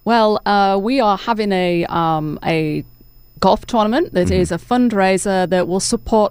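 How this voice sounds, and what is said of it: English accent, no southern twang. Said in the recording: “I love your accent ... I'm originally from England ... still have the accent ... there's no southern twang or anything”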